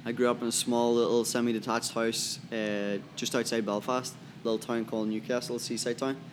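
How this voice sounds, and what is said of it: Irish accent. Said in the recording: “You can hear his Irish accent.”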